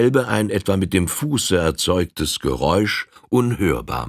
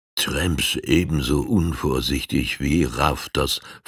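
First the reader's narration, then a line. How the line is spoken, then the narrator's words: Chief whispering. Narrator (German): flüsterte der Tonkawa-Häuptling seinem Gefährten zu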